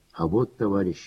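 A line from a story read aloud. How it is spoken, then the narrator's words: Sighing. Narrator (Russian): вздохнул Захар Дмитриевич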